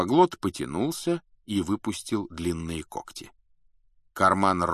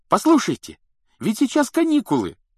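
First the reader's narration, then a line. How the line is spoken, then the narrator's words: Exclaiming. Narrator (Russian): воскликнул Рон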